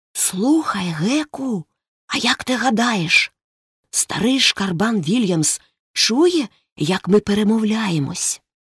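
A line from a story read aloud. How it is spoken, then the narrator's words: Whisper. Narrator (Ukrainian): Потім Том прошепотів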